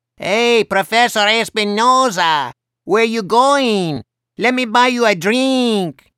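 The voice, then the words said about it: Hideous Speedy Gonzalez-style cartoon accent. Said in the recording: “hailed him in another hideous Speedy Gonzalez accent”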